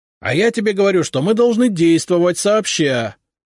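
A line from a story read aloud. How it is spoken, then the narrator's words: Heated shouting. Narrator (Russian): разгоряченно кричал Долгоруков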